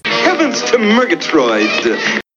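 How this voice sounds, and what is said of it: Snagglepuss cartoon voice impression. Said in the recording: “It's like Snagglepuss. Do you remember the Snagglepuss cartoons? ... It's like what Snagglepuss sounds like.”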